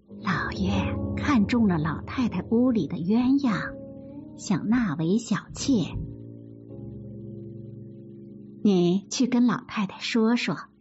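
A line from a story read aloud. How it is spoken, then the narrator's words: Whispering. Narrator (Chinese): 邢夫人悄声说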